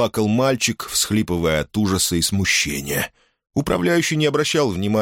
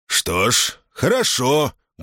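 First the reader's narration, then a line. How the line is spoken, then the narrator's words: Menacing. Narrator (Russian): грозно проговорил он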